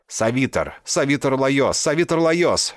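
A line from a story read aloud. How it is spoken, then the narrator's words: Nonstop shouting. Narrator (Russian): без остановки кричал он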